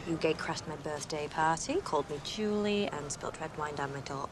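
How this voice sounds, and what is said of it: Put-on English accent. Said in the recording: “She's doing an English accent.”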